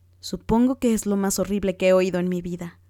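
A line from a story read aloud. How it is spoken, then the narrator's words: Exclaimed. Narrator (Spanish): exclamó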